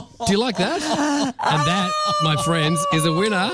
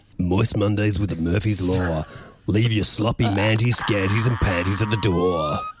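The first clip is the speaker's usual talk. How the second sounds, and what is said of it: Announcer-style radio voice. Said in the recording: “Give us your best radio voice. ... Give it your best radio voice.”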